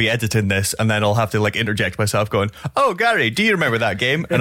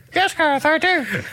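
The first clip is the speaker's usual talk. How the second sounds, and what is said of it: Imitates another person's voice. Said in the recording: “a perfect impression of me ... that was me doing an impression ... it just sounded like there was just two of me”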